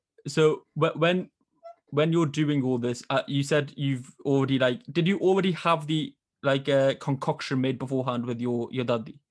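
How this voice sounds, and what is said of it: Northern English accent. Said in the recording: “I love when Northern people say book, book ... my accent getting ridiculed by Southerners”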